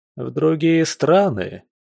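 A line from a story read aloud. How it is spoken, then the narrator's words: Sarcastic question from audience. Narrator (Russian): язвительно уточнил кто-то из публики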